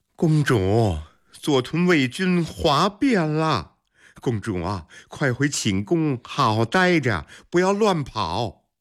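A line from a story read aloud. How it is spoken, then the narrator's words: Sighing. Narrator (Chinese): 王德叹了口气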